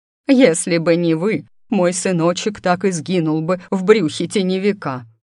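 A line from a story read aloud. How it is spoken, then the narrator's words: Sobbing woman. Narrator (Russian): всхлипнула она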